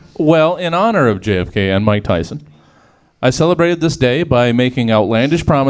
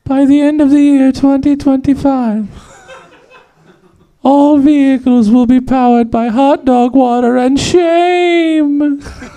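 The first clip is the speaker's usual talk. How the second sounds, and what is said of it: Silly funny proclamation voice. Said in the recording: “in a funny voice that makes my decrees seem ridiculous ... I didn't do it in a Mike Tyson voice. It's a different a funny voice.”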